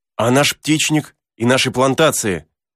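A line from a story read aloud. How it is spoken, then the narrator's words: Exclaiming. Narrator (Russian): воскликнул Герберт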